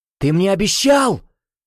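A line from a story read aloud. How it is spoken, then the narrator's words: Angry exclamation. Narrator (Russian): в гневе воскликнул Джулио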